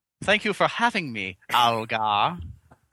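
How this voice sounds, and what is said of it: Put-on Chinese accent, funny voice. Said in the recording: “your racist Chinese accent there ... I was just talking funny”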